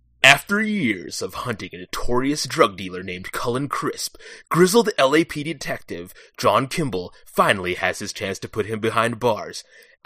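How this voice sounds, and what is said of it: Dramatic movie trailer voice. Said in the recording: “do my best trailer voice”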